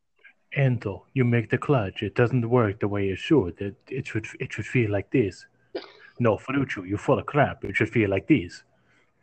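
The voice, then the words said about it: Bad put-on Italian accent. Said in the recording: “Worst accent I've ever heard in my life.”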